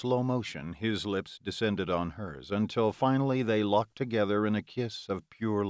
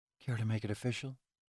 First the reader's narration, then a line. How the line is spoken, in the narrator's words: Delilah whispered